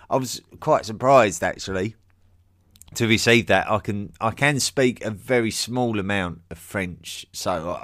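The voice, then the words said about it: Strong accent. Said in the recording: “Your accent is strong”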